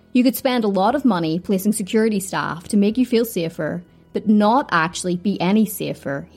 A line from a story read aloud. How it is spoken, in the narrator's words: he said